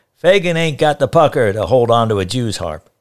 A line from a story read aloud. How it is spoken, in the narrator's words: Uncle Mal shouted